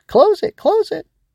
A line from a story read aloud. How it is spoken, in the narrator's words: the voice cried out frantically